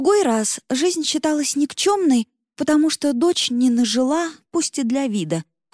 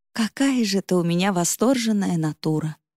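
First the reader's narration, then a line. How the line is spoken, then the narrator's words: Tired smiling, mother. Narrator (Russian): устало улыбнулась мама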